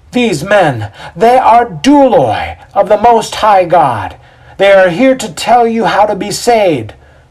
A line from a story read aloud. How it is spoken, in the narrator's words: Seething, Cora yells out